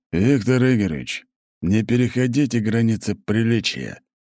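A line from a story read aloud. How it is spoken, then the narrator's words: Steely request. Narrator (Russian): стальным тоном попросил Мышкин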